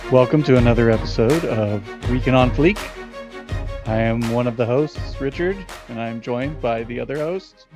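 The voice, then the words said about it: Polished radio announcer voice. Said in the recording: “you have that epic radio voice”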